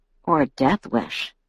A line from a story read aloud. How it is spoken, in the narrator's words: he muttered to himself